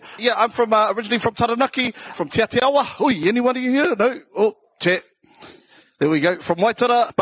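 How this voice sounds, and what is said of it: South Auckland New Zealand accent. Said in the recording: “as you could tell from my South Auckland accent here”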